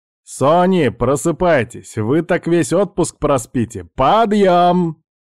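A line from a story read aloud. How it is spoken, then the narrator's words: Loud announcement. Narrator (Russian): громко объявил Алекс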